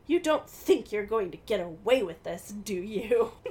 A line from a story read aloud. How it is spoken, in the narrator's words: They laugh scornfully at her